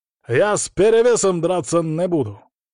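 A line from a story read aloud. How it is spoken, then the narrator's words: Harsh, defiant, cruel. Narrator (Russian): Слова прозвучали резко, вызывающе и жестоко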